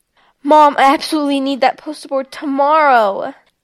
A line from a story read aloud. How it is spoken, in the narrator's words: Charlotte exclaimed